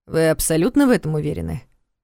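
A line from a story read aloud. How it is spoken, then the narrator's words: Calm clarifying question. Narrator (Russian): спокойно уточнил Карпатский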